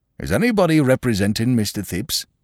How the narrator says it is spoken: he asked, irritably

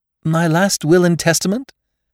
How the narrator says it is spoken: Rayner's laugh redoubled

